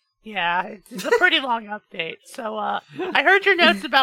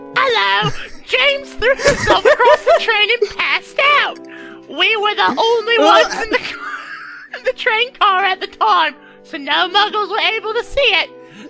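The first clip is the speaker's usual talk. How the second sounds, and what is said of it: Put-on British accent. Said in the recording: “my British accent”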